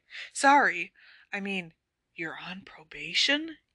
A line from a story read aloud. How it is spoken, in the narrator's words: whispered